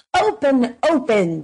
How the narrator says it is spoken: they screamed

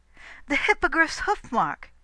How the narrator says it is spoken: cried

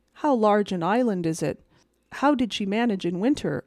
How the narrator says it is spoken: I asked

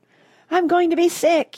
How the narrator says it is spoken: yelled Mrs

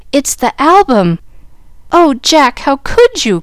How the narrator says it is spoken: cried Jill, dismayed at the sight of the precious book so maltreated by the owner

